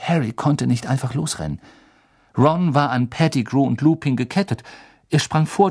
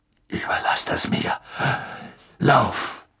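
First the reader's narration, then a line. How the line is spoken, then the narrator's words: Eerie growl. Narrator (German): Ein schauriges Knurren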